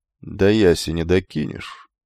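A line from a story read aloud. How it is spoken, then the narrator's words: Asked calmly. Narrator (Russian): спокойно спросил кентавру и Фикла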